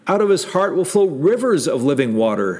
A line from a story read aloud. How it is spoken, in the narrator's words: says Jesus